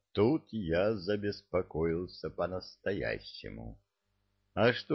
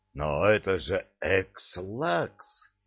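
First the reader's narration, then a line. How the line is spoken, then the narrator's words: Exclaiming. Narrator (Russian): воскликнул я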